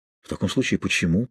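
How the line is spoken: Simple whisper. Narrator (Russian): просто прошептал он

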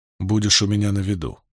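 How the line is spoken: Quiet. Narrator (Russian): тихо сказал Ранд

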